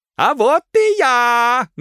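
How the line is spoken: Loud shout. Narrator (Russian): громко крикнул хозяин

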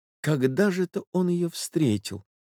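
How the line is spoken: Agitated muttering. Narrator (Russian): бормотал молодой человек, очевидно, в крайнем волнении

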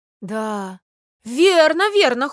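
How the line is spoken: Shouted in chorus. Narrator (Russian): хором крикнули опять все

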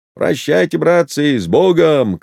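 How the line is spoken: Shout. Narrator (Russian): крикнул Кузьмичев

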